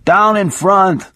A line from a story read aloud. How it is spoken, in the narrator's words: somebody else yelled